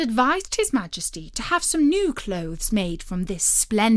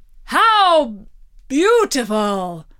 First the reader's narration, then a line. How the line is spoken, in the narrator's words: they all exclaimed